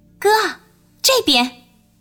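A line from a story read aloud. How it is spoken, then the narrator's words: Smiling. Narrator (Chinese): 他笑着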